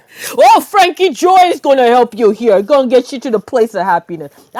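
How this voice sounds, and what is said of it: Put-on mafia-style accent. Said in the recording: “Have a voice for that guy. ... That's a terrible accent, but I love it.”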